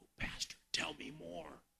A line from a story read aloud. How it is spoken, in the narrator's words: a knowing smile of peace covered her face, and she whispered